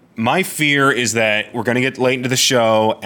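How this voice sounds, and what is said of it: Usual voice. Nothing is said of it.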